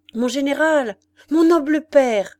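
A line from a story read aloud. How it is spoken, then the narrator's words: Familiar voice exclaiming. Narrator (French): s'écria une voix connue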